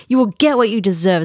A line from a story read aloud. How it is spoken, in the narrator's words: Slissac spat out